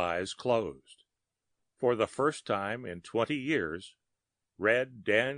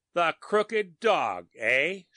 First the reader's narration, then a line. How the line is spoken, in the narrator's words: shouted Reardon angrily